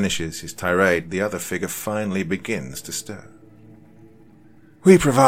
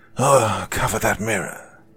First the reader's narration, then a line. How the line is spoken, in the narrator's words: he says in a hushed, frenzied tone